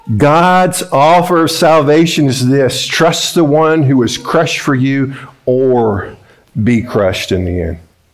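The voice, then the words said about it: Strong accent, hard to understand. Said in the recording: “with this accent that I have, it's hard for you to understand”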